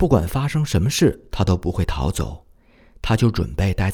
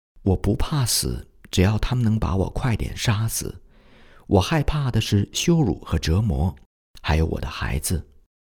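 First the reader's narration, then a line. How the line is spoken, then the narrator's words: Trembling young woman's voice. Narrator (Chinese): 一位年轻的母亲声音有点颤抖，说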